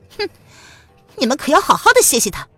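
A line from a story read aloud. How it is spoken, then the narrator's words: Cold sneer through teeth. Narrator (Chinese): 蒋灵谦咬牙冷笑道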